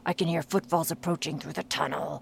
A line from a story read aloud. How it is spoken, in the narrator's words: growled Grignr in a hushed tone